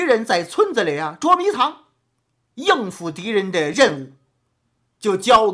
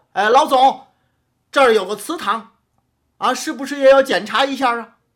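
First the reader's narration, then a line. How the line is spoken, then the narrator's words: Deliberately loud warning. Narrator (Chinese): 声音高了就是通知这祠堂阁楼上的伤病员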